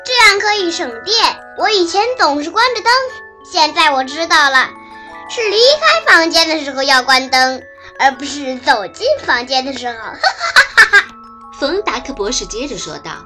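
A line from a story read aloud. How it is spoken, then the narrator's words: Loud. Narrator (Chinese): 高飞大声说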